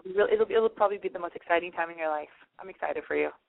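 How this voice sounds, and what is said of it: Hoarse, strained voice. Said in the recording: “I feel like I'm losing my voice, ... like my voice is getting there”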